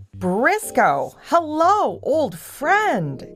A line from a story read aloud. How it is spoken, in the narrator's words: exclaimed Bernie